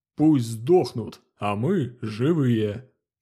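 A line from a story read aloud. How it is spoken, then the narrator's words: Partner's toast. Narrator (Russian): Прозвучал незнакомый тост в исполнении напарника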